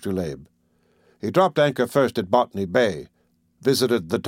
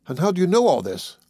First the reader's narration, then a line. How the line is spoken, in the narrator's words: I exclaimed